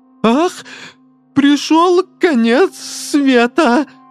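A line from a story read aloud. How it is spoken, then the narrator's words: Moan. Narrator (Russian): простонал Жан Трус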